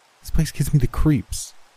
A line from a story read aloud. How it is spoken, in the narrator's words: the girl said, her eyes darting anxiously from side to side